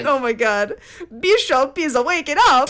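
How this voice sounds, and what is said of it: Screamed fake robotic Italian accent. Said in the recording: “he starts screaming in a fake android Italian accent”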